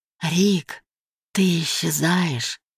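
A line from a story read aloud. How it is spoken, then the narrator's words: Whisper. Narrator (Russian): шепотом произносит она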